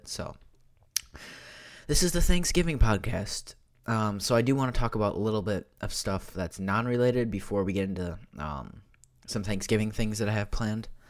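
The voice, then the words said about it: Sick, slightly altered voice. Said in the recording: “I'm sick ... you can kind of tell my voice is kind of different. It might sound a little bit different, but it does hurt my throat when I talk”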